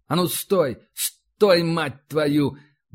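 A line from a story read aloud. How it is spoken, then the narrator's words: Frightened shout. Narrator (Russian): выкрикнул Иванцов, чувствуя, как внутренне холодеет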